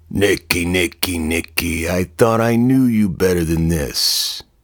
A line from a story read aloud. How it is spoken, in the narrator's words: Marlin said gruffly